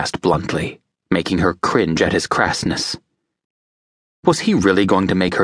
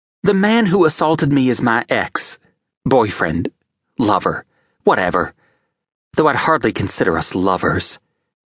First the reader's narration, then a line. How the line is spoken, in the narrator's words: she said bitterly